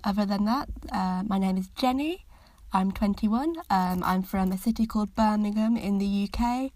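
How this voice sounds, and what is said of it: Mild Birmingham English accent. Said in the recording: “accent I've got if anyone is struggling to understand me a little bit, even though I'd say I don't really have a proper Brummie accent”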